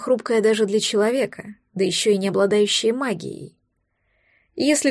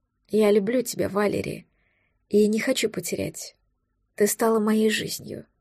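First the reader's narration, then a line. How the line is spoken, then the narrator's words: Quiet confession. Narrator (Russian): признался он тихо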